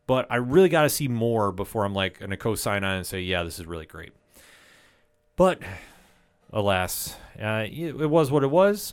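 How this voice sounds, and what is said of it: Disappointed, deflated tone. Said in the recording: “you can kind of hear the disappointment in my voice”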